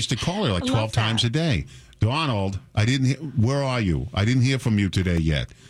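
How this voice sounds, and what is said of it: Usual voice. Nothing is said of it.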